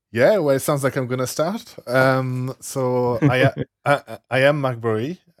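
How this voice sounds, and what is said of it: French accent. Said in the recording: “I'm French, as accent probably gave away.”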